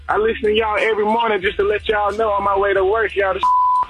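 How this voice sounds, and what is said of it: Southern twangy accent. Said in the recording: “I love his accent... I love them Southern twangy type of accent.”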